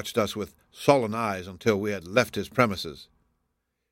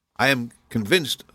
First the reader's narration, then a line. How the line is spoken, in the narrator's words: said I